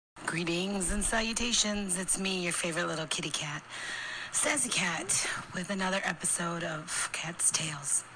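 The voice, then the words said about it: Raspy voice. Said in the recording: “I still have my raspy voice”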